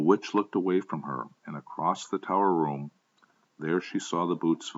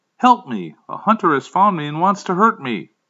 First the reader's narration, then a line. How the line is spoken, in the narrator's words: Instead of finding acting in a timid way, yelled back at the witch